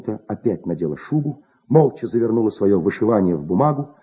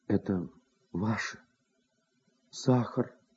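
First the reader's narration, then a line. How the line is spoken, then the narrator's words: Quiet, near tears. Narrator (Russian): Тихо сказала она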